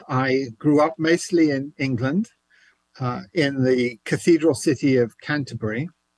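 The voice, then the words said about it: English accent. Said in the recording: “you may hear an English accent.”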